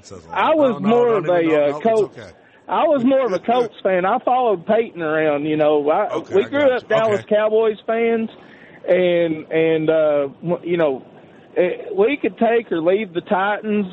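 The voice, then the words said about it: Strong, striking accent. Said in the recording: “I love your accent, by the way. I could literally listen to you all night long ... what an accent that guy's got. Are you kidding me? Good God Almighty.”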